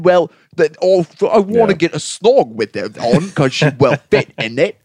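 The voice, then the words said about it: Mock Cockney British accent. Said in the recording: “sexy British accent ... They have the Cockney one.”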